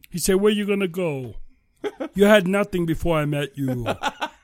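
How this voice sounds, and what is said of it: Deaf-sounding giant character voice. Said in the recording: “you sound like a deaf Andre the Giant”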